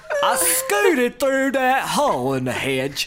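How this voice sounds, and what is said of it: Put-on Southern Louisiana accent. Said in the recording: “now I'm picturing, like, the South and a rocking chair ... We're in Louisiana ... We gotta change all the accents ... if he does that voice for the rest of it”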